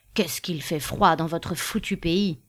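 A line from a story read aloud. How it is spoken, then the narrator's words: Grumbling. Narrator (French): grommela-t-il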